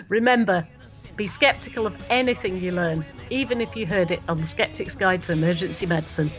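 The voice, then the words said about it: Congested, stuffed-up nasal voice. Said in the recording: “that accent you have that's all stuffed up”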